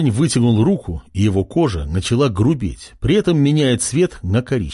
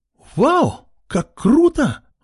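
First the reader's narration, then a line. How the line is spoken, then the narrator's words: Exclaiming. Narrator (Russian): воскликнула Марго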